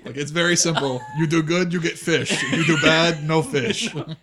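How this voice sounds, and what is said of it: Put-on Eastern European accent. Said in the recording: “I don't even know what accent that is. ... Eastern European was what”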